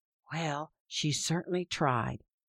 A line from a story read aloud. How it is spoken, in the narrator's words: his mother whispered back